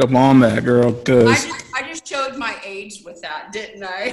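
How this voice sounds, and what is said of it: Usual voice. Nothing is said of it.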